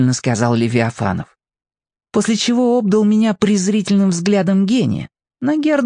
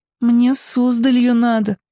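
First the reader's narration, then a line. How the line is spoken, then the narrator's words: Sigh. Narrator (Russian): вздохнула я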